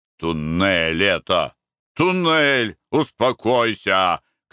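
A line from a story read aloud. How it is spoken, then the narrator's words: Shouting. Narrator (Russian): кричал Николай Иванович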